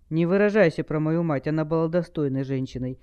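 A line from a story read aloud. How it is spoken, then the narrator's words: Weary interruption. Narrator (Russian): устало оборвал его Дасх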